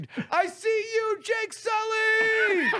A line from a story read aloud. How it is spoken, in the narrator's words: he ... screamed